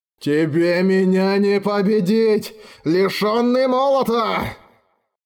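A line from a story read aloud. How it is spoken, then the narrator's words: Hoarse rasp. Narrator (Russian): Прохрипел Барст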